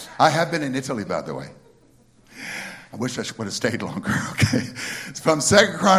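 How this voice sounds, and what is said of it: Usual voice. Nothing is said of it.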